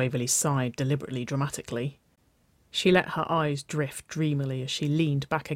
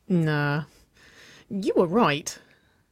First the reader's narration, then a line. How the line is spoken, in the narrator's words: Nicole chuckled